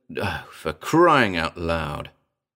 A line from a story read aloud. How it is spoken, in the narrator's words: I muttered